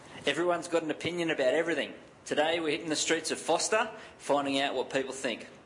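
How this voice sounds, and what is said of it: Australian accent. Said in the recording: “This is from Australia. Sorry, there's an accent.”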